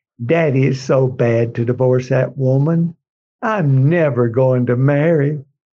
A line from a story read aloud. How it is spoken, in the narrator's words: Eiko moans in tears